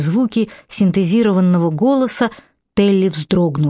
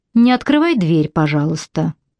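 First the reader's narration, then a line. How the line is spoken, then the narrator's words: Calm. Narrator (Russian): спокойно проговорил Перис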